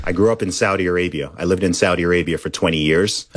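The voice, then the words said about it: Mostly American accent, slightly British. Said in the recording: “I don't think my accent is like 100%. Americanized. It's sort of maybe like 80% American, 20% British. It's just a weird hybrid international thing.”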